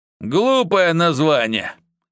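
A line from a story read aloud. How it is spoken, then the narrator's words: Dismissive snort. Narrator (Russian): хмыкнул тот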